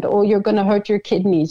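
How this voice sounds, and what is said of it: Imitated thick German accent. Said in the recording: “with her thick German accent”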